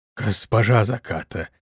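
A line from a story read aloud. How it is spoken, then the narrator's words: Surprised whisper, swineherd. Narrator (Russian): прошептал удивленный свинарь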